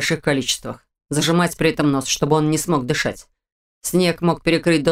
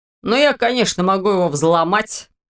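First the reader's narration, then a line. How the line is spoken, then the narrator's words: Wry snort. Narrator (Russian): хмыкнул тот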